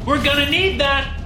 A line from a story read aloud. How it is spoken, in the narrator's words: Max yelled